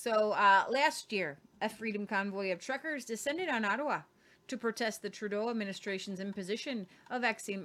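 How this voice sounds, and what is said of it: Put-on northern accent drifting Irish. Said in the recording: “I'm going a little Irish ... It was my northern nether accent, and it went Irish a little bit”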